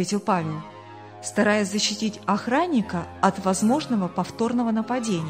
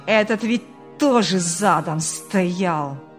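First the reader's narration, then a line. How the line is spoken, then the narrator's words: Angry growl. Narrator (Russian): Буквально прорычал в злобе Ильяс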